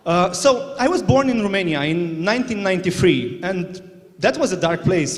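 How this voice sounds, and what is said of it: Foreign-accented English. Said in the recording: “my accent sounds funny”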